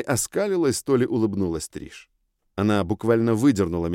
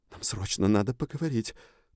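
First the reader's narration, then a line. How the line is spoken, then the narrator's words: Terrified whisper. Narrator (Russian): прошептала с ужасом в голосе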